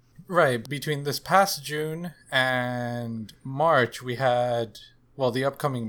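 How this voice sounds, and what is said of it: Usual voice. Nothing is said of it.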